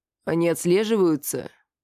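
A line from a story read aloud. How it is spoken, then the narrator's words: Quiet. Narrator (Russian): Так же тихо сказал я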